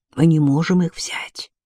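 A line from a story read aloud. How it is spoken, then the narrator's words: Whisper in ear. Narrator (Russian): прошептал он на ухо сестре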